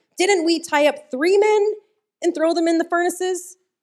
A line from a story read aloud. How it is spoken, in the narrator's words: Nebuchadnezzar jumped up in amazement and exclaimed to his advisors